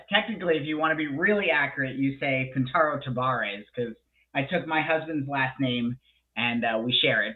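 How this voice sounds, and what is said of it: Thick Florida accent. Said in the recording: “he's got a Florida accent that sometimes is so thick you want to puke.”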